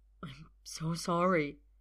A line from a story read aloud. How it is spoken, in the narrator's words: says, and he's choked up, stopped short by guilt and regret